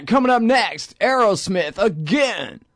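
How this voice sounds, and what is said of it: Radio DJ announcer voice. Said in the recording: “That was my radio voice. That was my KLBJ voice.”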